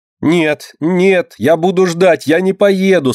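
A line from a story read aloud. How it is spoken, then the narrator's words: Tearful shouting. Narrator (Russian): со слезами кричала Динка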